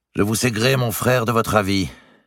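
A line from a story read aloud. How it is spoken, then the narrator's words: Cold reply. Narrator (French): répondit-il froidement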